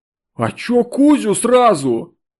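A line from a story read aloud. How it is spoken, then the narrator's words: Offended yelling. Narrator (Russian): Сатана обиженно завопил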